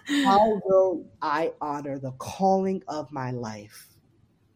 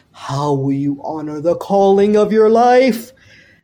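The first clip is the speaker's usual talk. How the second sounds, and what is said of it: Imitates another person's voice. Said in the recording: “my Oprah impersonation attempt”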